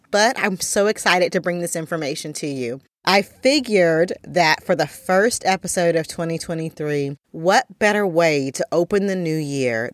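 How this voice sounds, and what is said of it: Voice sounds slightly off, under the weather. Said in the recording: “my voice sounds a little bit different today, getting over something that I got over the holidays”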